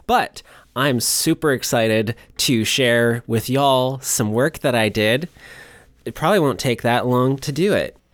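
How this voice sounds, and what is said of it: Tired, gentle voice. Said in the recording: “My voice is a little bit tired, so I'm going to be a little bit gentle with it.”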